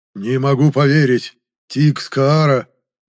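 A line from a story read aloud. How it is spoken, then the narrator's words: Breathless exhale. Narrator (Russian): выдохнул кардинал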